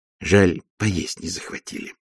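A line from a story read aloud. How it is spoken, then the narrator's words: Whispered complaint. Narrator (Russian): посетовала матушка шепотом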